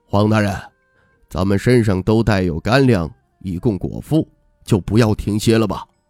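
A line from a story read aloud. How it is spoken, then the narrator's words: Resigned low voice. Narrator (Chinese): 赵鹤场的富态中年人有些无奈，低声道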